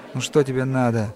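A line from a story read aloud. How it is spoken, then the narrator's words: Gloomy. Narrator (Russian): мрачно отозвался тот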